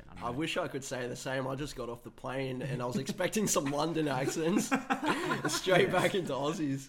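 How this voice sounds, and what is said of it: Australian accent with twang. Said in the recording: “It's actually so refreshing to hear an Australian accent. ... having the Australian twang to the accent.”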